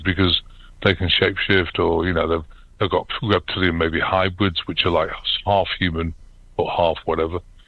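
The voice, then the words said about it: British accent. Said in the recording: “I'm still got a British accent”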